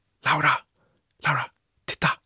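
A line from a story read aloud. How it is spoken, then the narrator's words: Whispered. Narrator (Swedish): viskade jag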